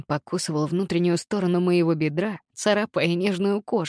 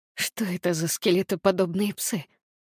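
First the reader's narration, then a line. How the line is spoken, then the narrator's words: Struggling whisper. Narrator (Russian): Далеко не с первой попытки я прошептала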